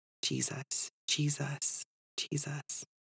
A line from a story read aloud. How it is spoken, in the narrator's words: whispered over and over again